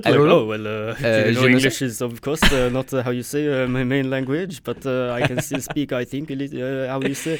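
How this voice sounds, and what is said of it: Mock French accent in English. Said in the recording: “you suddenly have a French accent... French people never know how you say... They're always so flustered.”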